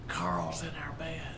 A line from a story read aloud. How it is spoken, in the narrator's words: I whispered to Patsy